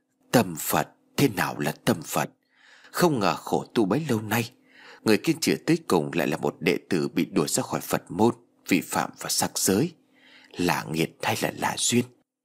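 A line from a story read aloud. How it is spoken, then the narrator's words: Old monk, long sigh. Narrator (Vietnamese): Nhà sư râu bạc thở dài thườn thượt nói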